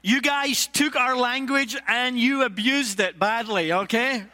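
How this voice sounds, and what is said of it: Scottish accent. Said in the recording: “Scottish preaching ... it's not me that has the accent”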